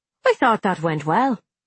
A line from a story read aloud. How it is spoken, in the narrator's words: Frank said brightly